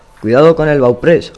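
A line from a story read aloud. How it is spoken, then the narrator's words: Captain shouting. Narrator (Spanish): grita el capitán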